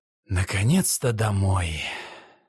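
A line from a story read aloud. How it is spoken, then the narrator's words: Sighing. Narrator (Russian): Он вздохнул и сказал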